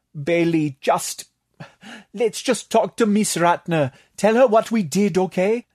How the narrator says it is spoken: Tatak pleaded

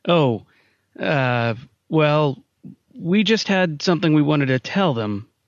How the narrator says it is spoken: Simon's voice faltered

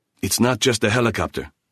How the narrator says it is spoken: Kulatak hissed

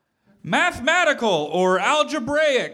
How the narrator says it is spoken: yelled Finn

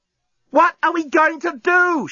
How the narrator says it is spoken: She yelled

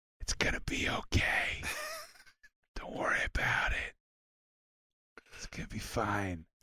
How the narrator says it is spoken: whispering

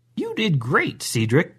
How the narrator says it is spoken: Grandma said rather cheerfully

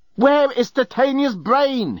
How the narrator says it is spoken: yelled

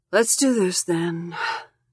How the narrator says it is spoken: she says, sighing

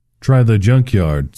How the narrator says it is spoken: said a voice

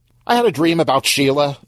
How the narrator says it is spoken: Stan blurted out

